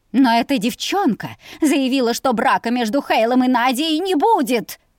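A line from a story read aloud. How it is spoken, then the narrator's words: Shrill squeal. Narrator (Russian): Взвизгнула вредная драконесса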